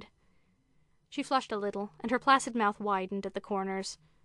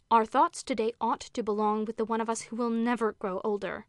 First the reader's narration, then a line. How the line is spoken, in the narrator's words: said Carolyn in a hard voice